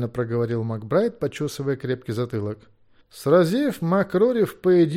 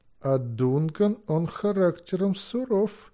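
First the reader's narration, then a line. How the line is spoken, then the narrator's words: Slow. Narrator (Russian): медленно проговорил Макбех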